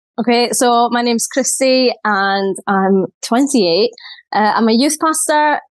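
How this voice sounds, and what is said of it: Scottish accent. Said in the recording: “obviously Scottish ... I hope you can understand what I'm saying ... the accent barrier”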